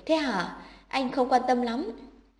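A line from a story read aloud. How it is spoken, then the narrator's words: Smiling. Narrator (Vietnamese): Anh mỉm cười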